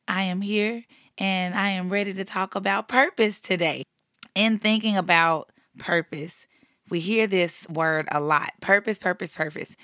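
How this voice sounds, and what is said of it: Voice sounds a little ill. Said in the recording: “as you can hear in my voice, I've been a little under the weather”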